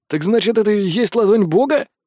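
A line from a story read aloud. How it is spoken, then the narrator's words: Snorting, wry. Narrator (Russian): хмыкнул Гор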